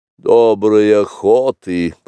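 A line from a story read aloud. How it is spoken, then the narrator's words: Grumbling. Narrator (Russian): проворчал, наконец, Каа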